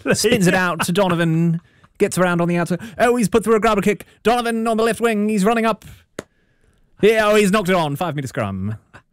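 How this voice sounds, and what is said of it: English-accented sports commentary voice. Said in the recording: “always in an English accent.”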